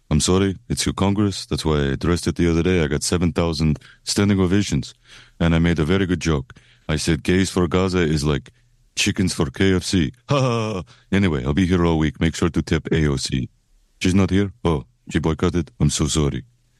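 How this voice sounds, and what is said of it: Bad Benjamin Netanyahu impression. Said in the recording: “bad impression of Benjamin Netanyahu”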